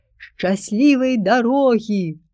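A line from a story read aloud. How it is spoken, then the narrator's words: Cheerful ringing youthful shout. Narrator (Belarusian): бадзёрым па-юнаску звонкім голасам крыкнуў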